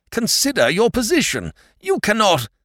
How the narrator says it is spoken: he almost howled

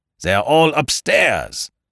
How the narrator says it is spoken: shouted Ganimard

